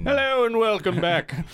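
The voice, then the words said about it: Game show announcer voice. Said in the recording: “you always have a, a game announcer voice ... feels like a new episode of The Price is Right every day”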